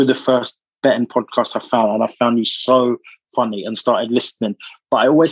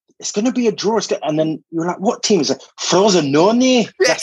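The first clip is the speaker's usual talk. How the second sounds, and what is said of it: Impression of the podcast host. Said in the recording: “That is a really good impression, to be fair.”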